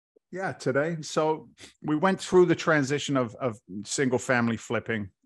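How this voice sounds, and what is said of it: Mixed British and Boston accent. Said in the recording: “I love your British Boston accent. ... It's a mess ... the Boston Brit”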